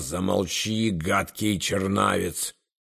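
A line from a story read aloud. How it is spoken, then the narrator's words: Hissing. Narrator (Russian): Поэт шипел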